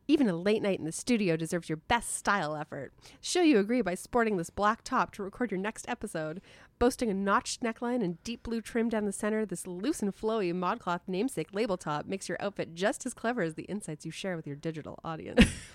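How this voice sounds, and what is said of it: Mock retail ad-copy voice. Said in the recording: “put on my ModCloth voice.”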